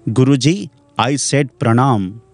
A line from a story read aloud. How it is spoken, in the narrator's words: the king said in an angry voice